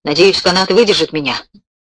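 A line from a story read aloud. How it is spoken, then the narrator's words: Mutter. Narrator (Russian): пробормотал Кроуэлл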